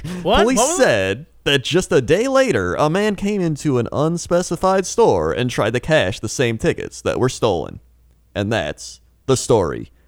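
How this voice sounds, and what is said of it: Late-night YouTube video narrator voice. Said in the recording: “It's not a newscaster voice. ... the voice of those videos you find at like 2 a.m. on YouTube.”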